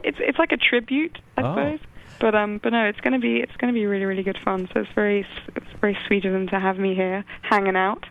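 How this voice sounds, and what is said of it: English accent. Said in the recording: “I love your accent ... I just love English accents.”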